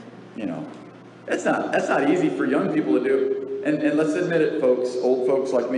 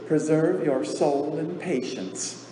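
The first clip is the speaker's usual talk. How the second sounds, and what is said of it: Mild put-on Southern accent. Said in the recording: “she uses a little southern accent”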